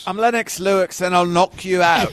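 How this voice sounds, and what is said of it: British accent, Lennox Lewis impression. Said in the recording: “Jeez, British accent. ... That was a good accent, though, also.”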